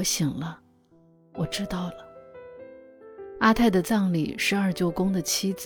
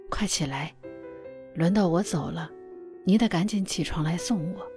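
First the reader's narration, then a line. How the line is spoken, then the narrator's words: Laughing. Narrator (Chinese): 阿泰笑着说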